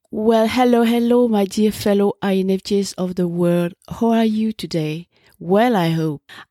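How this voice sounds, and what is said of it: Slightly shaky, weakened voice. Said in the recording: “a very, very bad case of flu, which deprived me totally of my voice for more than a week... my voice is okay now, at least maybe a little bit... a little bit shaky still”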